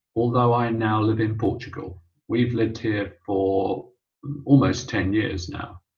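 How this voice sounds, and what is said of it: British accent. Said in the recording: “I, as you may have gathered, have a British accent,”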